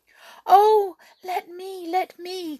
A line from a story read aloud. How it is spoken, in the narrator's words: cried a little silvery voice